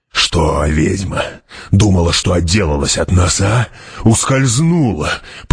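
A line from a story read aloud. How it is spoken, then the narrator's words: Growled. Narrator (Russian): прорычал Гурни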